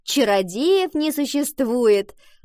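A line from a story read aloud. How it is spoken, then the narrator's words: Chiming in. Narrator (Russian): подхватила Валентина, и девочки расхохотались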